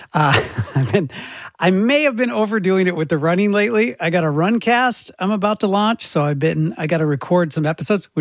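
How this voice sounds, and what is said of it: Hoarse, fading voice. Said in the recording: “I'm losing my voice, and you can probably tell.”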